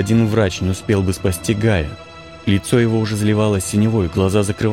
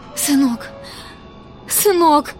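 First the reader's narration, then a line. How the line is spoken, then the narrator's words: Sobbing. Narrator (Russian): рыдала Итка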